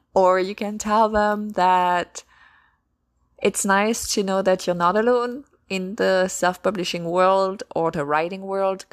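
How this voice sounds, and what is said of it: French accent. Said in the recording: “my French accent is very charming”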